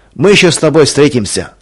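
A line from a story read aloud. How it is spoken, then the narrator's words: Shouted after someone. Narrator (Russian): крикнул вслед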